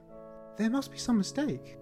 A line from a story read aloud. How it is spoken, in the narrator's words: she whispered